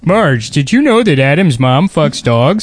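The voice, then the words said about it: Homer Simpson impression. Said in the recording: “your Homer Simpson impression ... Then is that close? ... In my head, it sounds perfect. ... that was great ... Maybe I should just call this the Homer”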